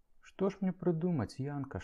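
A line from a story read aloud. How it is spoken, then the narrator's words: Feverish whisper. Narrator (Belarusian): шаптала я, як у гарачцы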